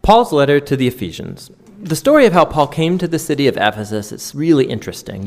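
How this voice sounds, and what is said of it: American accent, fast speech. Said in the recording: “it's American. They do talk very quickly”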